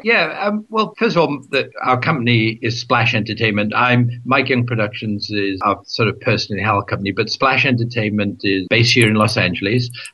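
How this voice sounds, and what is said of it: Slight Welsh accent. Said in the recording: “You can hear a little bit of an accent from me. I'm Welsh.”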